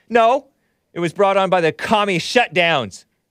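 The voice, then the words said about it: Yelling angrily. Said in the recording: “I'm yelling.”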